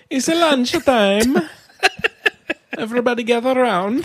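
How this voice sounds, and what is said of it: Put-on Italian accent. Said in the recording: “With an Italian accent.”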